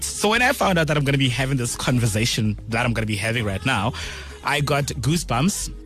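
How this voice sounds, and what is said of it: Excited, energetic voice. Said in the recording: “hear the excitement in my voice”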